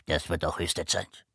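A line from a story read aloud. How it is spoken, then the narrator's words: Mumbling. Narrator (German): nuschelte eine dritte Stimme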